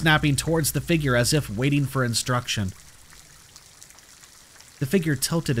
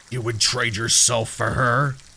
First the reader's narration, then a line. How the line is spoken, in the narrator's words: It asked, its voice low and rumbling